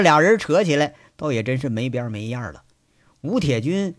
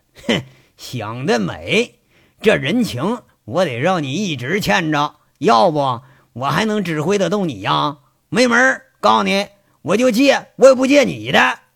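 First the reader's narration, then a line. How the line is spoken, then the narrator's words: Laughing, teasing. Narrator (Chinese): 吴铁军随口爆出一阵大笑，玩味的说着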